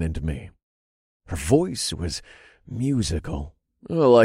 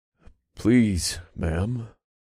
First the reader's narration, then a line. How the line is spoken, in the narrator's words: I said and forced my voice to remain steady